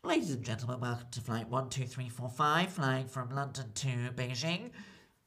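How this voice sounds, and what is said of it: Weird flight attendant announcement voice. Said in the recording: “some flight attendants speak English in a weird accent for show off ... they do speak in a different way ... They speak in like a different pattern ... It sounds weird.”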